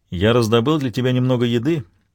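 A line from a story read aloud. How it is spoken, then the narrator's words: Plain. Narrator (Russian): говорит Марк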